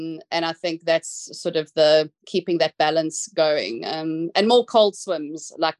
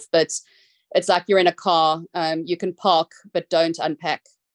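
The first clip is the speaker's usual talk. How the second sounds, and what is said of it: South African accent. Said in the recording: “I'm going to say it in my South African accent, which might throw some people off”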